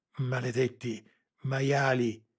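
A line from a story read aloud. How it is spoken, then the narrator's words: Panting, helpless rage. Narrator (Italian): ansimò Lara, sopraffatta dalla rabbia impotente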